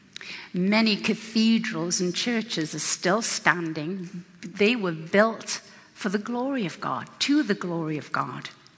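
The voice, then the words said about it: English accent. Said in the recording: “you can tell I have an English accent, right?”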